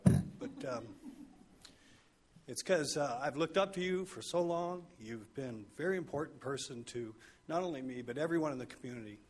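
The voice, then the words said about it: Choked-up, emotional voice. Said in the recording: “I don't know why I'm getting choked up,”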